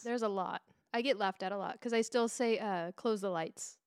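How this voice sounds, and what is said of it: Non-native English accent. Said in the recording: “that's how I fucking pronounce it in my accent... English is my second language”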